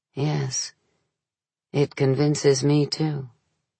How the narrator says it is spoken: Stefano instead murmured softly

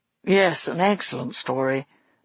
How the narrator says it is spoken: murmured Mo

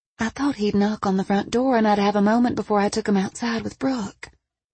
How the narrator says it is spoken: Dana whispered, just loud enough for Harper to hear

